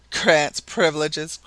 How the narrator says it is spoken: cried the Canadian scornfully

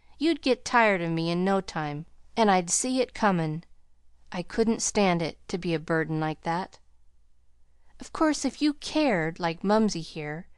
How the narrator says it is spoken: he choked back a sob

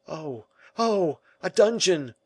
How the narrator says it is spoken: cried the king

